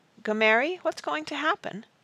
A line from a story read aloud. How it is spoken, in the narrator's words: Jane said nervously